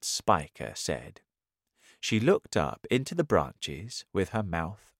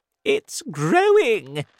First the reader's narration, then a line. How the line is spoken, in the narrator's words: she cried